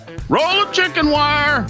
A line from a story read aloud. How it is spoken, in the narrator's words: The boy yells back